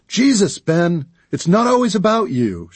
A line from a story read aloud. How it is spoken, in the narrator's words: she yelled over her shoulder